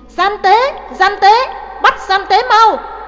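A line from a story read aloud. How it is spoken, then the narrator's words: Yelling. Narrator (Vietnamese): Trưng Nhị la lên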